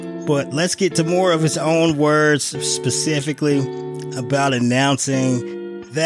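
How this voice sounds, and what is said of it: Usual voice. Nothing is said of it.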